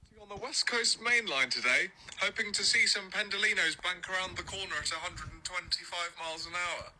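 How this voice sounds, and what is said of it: Very posh British accent. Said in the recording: “his British accent's incredible ... That's how fucking British his voice is.”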